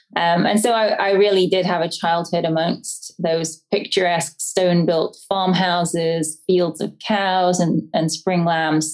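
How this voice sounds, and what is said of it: English accent. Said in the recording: “I grew up in the English countryside, as you can probably tell by my accent.”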